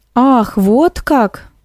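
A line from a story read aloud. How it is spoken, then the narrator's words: Drawled. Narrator (Russian): протянула Эликс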